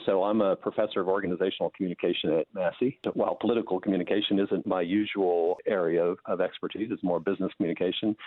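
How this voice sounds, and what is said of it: American accent. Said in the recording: “as you can tell from my accent, as an American.”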